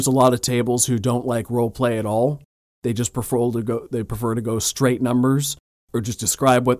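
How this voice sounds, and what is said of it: Usual voice. Nothing is said of it.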